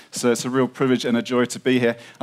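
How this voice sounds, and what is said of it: British accent. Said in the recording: “I've got a funny British accent”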